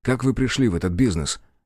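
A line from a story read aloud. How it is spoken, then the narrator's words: Sharp question. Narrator (Russian): резко спросил Аккерман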